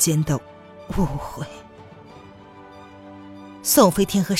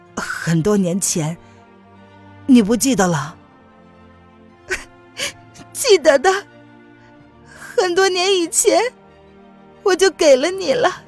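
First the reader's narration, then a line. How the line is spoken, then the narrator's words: Hazy smiling voice. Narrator (Chinese): 钱丹依旧是朦胧的笑着说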